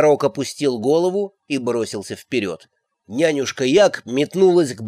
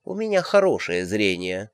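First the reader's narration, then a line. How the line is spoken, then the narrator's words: Calm. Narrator (Russian): спокойно откликнулась матушка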